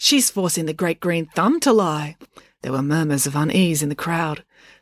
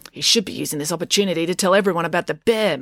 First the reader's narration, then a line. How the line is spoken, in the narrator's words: muttered April